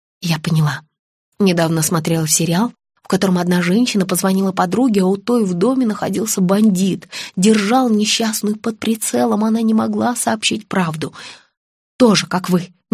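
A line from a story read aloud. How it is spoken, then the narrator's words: Mumbling. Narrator (Russian): мямлила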